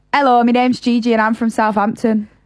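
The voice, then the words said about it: Put-on southern English accent. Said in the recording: “And then say it in a southern accent. ... They're so different.”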